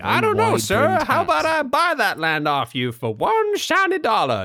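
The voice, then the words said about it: Put-on transatlantic accent, treacherous character. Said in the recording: “a treacherous chap with a transatlantic accent”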